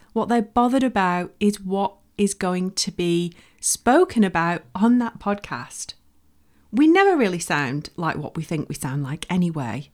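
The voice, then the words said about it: Northern English accent. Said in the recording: “Nobody cares that I'm from the north ... I'm from Bolton in the northwest of the UK”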